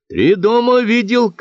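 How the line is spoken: Shouted reply. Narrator (Russian): крикнул в ответ Павел

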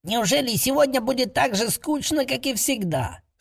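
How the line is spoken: Slightly irritated grumble. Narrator (Russian): Слегка раздраженно проворчал молодой гоблин

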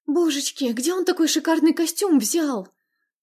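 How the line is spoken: Flustered whisper. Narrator (Russian): сбивчиво зашептала Маргарита

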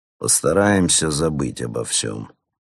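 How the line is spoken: Conciliatory tone. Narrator (Russian): продолжил он примирительным тоном

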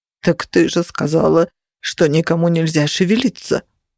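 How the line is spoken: Trembling fat man's moan. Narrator (Russian): простонал толстяк, сглатывая и дрожа мелкой дрожью

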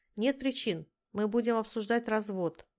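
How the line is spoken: Forced out. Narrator (Russian): выдавила из себя

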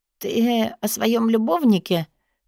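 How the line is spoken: Hoarse stalling rasp. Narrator (Russian): прохрипела, пытаясь выгадать время

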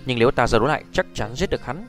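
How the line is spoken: Pause, then cold. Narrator (Vietnamese): Hắc Y Nhân ngừng một chút lạnh lùng nói

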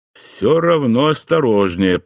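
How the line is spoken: Grumbled. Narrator (Russian): проворчал я

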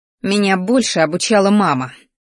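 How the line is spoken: Spiteful through gritted teeth. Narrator (Russian): злобно процедила сквозь зубы

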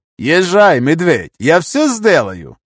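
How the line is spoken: Snide creaky voice. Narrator (Russian): ехидно проскрипел Шая

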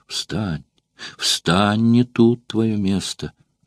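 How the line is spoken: Trembling whisper. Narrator (Russian): вся дрожа прошептала Валерия

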